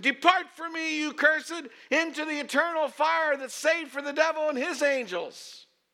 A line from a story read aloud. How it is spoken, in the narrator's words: picked up the bullhorn and he yelled in my direction